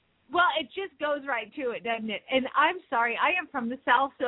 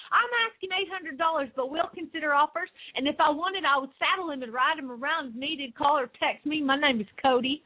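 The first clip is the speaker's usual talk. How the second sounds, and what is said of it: Put-on Southern accent. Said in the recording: “your Southern accent”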